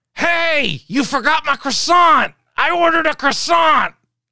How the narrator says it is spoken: she screams

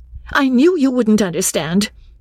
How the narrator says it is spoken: said Lucy, quite crossly

